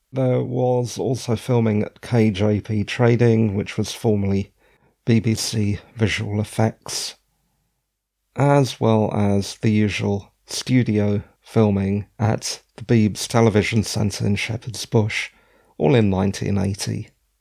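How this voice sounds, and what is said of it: Croaky, tired voice. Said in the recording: “my voice is getting a bit croaky ... it has been a tiring day”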